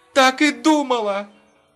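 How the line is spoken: Joyful laughter. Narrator (Russian): Рутман радостно засмеялась

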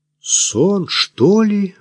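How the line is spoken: Breathless exhale. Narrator (Russian): выдохнула Кира

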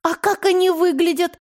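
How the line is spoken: Frightened question. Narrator (Russian): испуганно спрашивала Лиля

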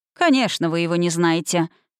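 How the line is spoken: Snorting. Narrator (Russian): хмыкнул мэр

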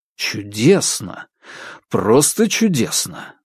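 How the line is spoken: Enthusiastic exclamation. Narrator (Russian): с энтузиазмом воскликнул Корсаков

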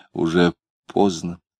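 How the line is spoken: Quiet reminder. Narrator (Russian): Лидия тихо напомнила

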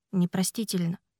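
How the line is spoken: Whisper. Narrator (Russian): прошептал он

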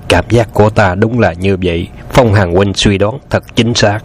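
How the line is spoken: Admiring exclamation. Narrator (Vietnamese): Từ Tử Lăng khâm phục thốt lên

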